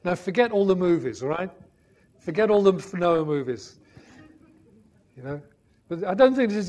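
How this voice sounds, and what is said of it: Usual voice. Nothing is said of it.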